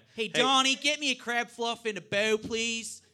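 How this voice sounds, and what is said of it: Put-on Baltimore accent. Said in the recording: “Baltimore accent ... Could you do it for me? ... So a little similar to Philadelphia. ... it's virtually identical to Philadelphia.”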